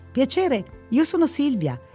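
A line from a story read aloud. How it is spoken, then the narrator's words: Eager exclamation. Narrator (Italian): esclamò balzando subito in piedi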